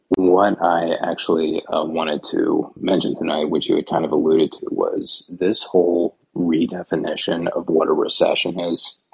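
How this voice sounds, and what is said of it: Quiet, low, soft speaking voice. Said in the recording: “NPR voice ... if it's a little low ... my nightly NPR voice”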